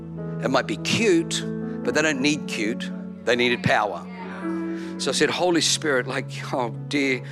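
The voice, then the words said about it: Australian accent. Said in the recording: “speaks with a funny Australian accent”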